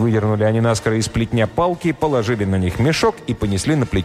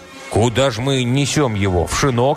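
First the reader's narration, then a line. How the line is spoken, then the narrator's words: Plain question. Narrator (Russian): спросил дорогую ткач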